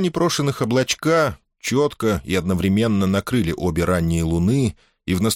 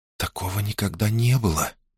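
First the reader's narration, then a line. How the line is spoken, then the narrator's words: Whisper. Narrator (Russian): прошептала принцесса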